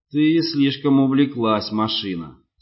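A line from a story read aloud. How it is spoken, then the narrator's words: Grim. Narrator (Russian): сказал мрачно Руис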